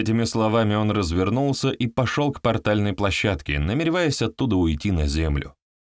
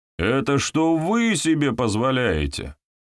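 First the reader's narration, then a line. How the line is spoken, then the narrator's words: Angry bark. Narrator (Russian): Рявкнул на нее Илья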